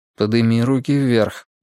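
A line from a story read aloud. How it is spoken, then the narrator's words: Calm quiet command. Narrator (Russian): спокойно и тихо приказал Тригрей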